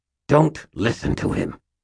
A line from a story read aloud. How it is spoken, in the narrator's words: Aristides said through clenched teeth, spraying spittle